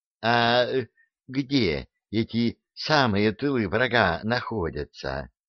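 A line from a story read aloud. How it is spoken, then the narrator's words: Timid question. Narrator (Russian): робко спросила Дуняшка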